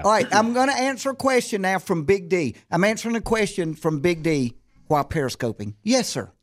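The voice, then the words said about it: Thick Southern US accent. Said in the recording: “your accent is really thick, okay? Almost borderline... Hard to understand ... I'm from the South, born and raised, but I don't have that”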